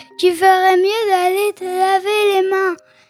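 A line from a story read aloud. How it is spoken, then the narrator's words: Sleepy voice. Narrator (French): Il m'a dit d'une voix ensommeillée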